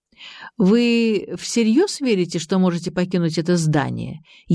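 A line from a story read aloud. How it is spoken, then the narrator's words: Sarcastic question. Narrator (Russian): язвительно осведомился Геннадий Андреевич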